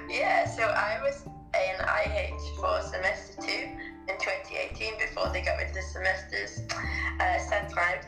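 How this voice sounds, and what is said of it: British English accent. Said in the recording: “I am from the UK. Obviously, the accent a little bit of a giveaway.”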